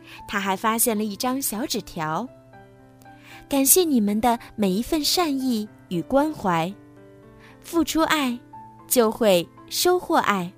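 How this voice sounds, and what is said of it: Soft, quiet whispered voice. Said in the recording (Chinese): “小声说”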